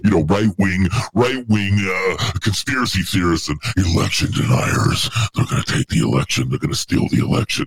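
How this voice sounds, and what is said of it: Imitates another person's voice. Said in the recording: “my impression of Hillary. It's the best I can do ... That was pretty on point, honestly.”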